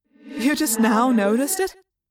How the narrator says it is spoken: Tobias laughed

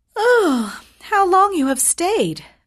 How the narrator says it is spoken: cried she, gaping, ... as if she had just been waked out of her sleep

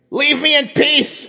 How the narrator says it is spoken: Satori shouted in a furor

